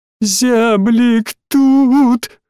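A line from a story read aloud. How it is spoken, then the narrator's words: Noisy sobbing. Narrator (Russian): шумно всхлипывал он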